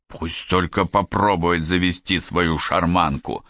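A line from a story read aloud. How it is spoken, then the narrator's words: Through gritted teeth. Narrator (Russian): процедил Тен сквозь зубы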